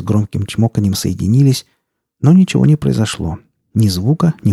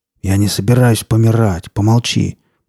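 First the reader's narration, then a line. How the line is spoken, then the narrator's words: Gruff grumble. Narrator (Russian): Буркнул он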